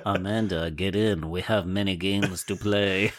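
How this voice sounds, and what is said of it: Lowered, deep character voice. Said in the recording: “that accent ... we drop it down a couple of registers”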